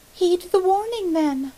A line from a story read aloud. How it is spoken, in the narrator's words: she cried with a nervous laugh